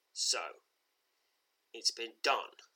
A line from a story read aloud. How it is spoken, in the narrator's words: says in a low voice